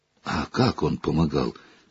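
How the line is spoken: Quiet question. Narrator (Russian): тихо спросила Гермиона

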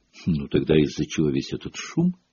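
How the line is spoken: Laughing. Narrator (Russian): рассмеялся Фадж

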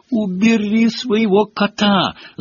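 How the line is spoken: Yell. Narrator (Russian): заорал Рон

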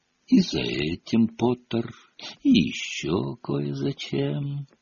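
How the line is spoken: Whispered. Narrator (Russian): прошептал Малфой

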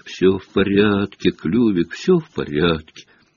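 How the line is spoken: Gentle, affectionate. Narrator (Russian): Ласково обратился к нему Хагрид

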